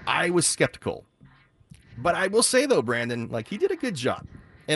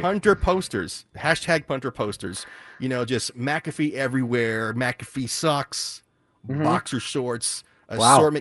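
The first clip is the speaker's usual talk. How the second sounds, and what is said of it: Sarcastic delivery. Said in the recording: “I'm being sarcastic”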